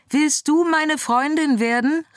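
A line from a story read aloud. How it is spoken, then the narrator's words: Calling out. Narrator (German): rief sie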